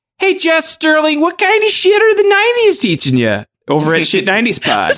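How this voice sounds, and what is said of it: Put-on Midwestern American accent. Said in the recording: “The Midwestern accent.”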